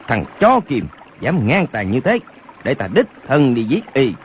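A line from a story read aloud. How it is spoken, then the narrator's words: Furious shout. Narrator (Vietnamese): Lục Quán Anh cả giận quát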